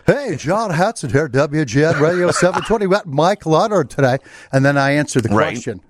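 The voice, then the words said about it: Harry Caray-style radio announcer voice. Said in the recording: “You gave me a real Harry Carey spin there a little bit. ... that's my radio voice”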